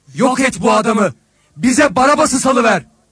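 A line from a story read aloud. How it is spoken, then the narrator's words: Crowd shouting. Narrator (Turkish): diye bağırdılar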